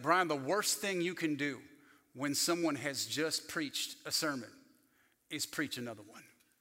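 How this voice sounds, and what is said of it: Put-on thick North Carolina accent. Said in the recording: “he had a thick North Carolina accent, I'm doing my best.”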